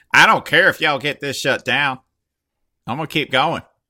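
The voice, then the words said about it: Put-on East Oklahoma accent. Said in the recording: “He had an extremely East Oklahoma accent”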